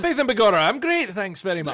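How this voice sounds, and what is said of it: Poor Irish accent drifting Scottish. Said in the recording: “that went from Irish to Scottish. ... That's bad.”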